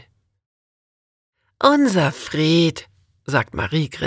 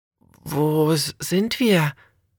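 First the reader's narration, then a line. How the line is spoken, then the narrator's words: Slightly anxious question. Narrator (German): fragt Alexis etwas ängstlich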